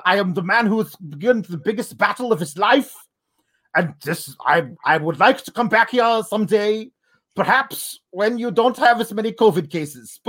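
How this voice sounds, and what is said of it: Put-on heavy German accent. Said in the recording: “he's got the biggest, like most obvious German accent, but everything about him, his whole character is Russian”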